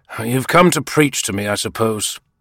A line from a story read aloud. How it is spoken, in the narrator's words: the magistrate said irritably